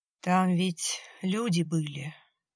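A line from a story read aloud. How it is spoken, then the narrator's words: Gloomy. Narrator (Russian): теперь уже мрачно заговорил он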